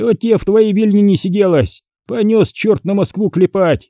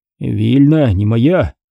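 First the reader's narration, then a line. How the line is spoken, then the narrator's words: Sighing. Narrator (Russian): вздохнул Кариат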